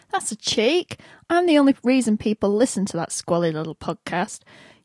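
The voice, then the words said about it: British accent. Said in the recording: “my hot British accent”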